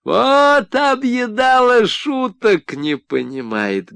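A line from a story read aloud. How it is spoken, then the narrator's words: Loud laughter. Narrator (Russian): громко засмеялся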